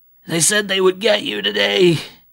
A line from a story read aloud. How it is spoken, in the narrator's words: he whimpered